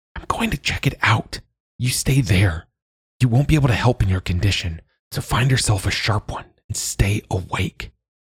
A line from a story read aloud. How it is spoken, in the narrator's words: she whispered